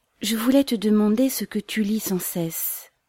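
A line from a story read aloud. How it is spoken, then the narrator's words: Soft, gentle. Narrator (French): fit-elle doucement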